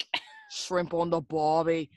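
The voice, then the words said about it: Poor put-on Australian accent. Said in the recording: “my accent was going to be... Okay, mate, we get it... No, it's not, Morgan... I'm working on it”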